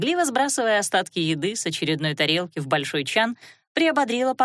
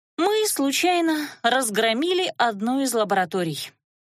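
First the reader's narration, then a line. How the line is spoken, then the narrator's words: Sighing. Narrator (Russian): вздохнула Лана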